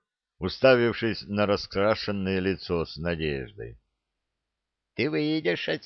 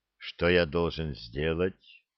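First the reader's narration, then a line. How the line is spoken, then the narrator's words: Hollow, fearful question. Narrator (Russian): глухо спросил юноша, со страхом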